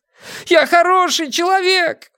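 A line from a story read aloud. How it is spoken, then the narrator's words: Wailing yell. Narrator (Russian): вопил он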